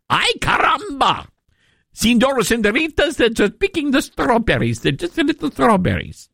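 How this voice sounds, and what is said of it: Poorly done put-on Mexican accent. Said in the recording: “I got to work on my south of the border accent. ... I completely botched that”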